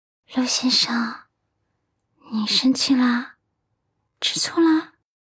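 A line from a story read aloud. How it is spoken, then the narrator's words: Soft pouting call. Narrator (Chinese): 阮南希撅嘴轻声叫道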